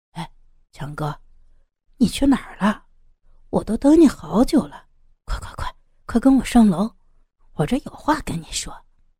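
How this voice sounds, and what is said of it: Quiet, hushed voice. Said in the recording (Chinese): “小声对着刀疤强说”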